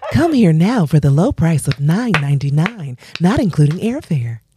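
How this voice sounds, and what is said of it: Infomercial travel-host voice. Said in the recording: “do you sound like an infomercial for Bali? Like, you sound like the travel guy.”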